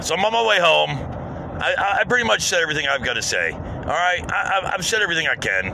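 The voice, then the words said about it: Slight Southern twang. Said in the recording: “you can hear my voice. I got a little bit of a Southern twang.”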